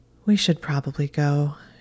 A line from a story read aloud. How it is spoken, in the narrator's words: said wistfully